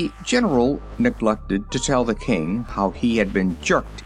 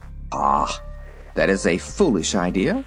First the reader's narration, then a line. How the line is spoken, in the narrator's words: retorted Guff irritably